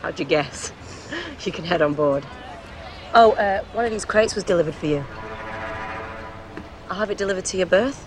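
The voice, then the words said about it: Manchester English accent. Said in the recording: “Manchester?”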